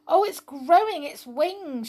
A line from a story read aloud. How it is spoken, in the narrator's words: cried